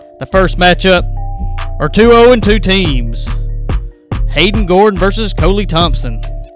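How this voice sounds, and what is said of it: Sports announcer voice. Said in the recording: “I don't know how good my announcer voice is”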